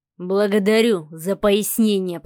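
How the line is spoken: Growled. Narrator (Russian): прорычал Савелий

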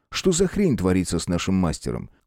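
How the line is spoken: Rapid chatter over voice chat. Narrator (Russian): Оркус быстро затараторил что-то по голосовой связи

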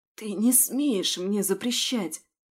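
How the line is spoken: Frightened hoarse voice. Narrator (Russian): Сиплю испуганно

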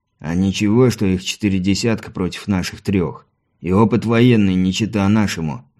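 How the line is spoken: Grumbled. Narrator (Russian): буркнул Мартин

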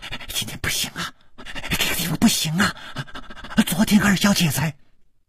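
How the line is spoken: Speech abruptly cut off. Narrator (Chinese): 还没有说完，就好像被什么东西给堵住了

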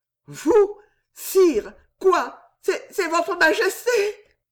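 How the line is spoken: Stammered. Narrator (French): balbutia-t-elle

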